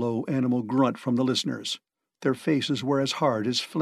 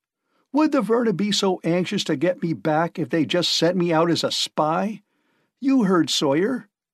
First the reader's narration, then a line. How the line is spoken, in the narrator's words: Price shouted